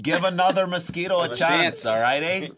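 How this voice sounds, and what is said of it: Put-on Wisconsin/Minnesota accent. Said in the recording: “That's a pretty good accent. It's a little Wisconsin-y, but it's pretty good. ... little Minnesota.”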